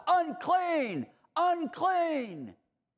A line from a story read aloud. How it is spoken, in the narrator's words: they had to yell out